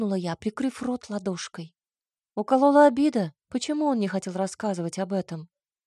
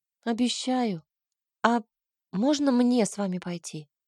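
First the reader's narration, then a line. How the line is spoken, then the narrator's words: Timid probing question. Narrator (Russian): Робко закинула удочку я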